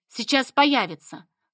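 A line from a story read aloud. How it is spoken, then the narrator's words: Snort. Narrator (Russian): хмыкнул Игнат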